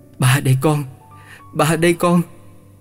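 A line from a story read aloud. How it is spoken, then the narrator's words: Emotional trembling stammer. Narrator (Vietnamese): Với vẻ xúc động ấy, giọng lập bập run run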